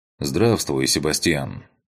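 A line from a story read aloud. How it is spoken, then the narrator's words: Calm. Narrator (Russian): Спокойно произношу я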